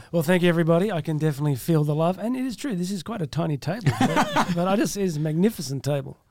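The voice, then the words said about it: Natural Australian accent. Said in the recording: “that was not an accent put on by somebody. It was just a natural accent ... flew here from Australia”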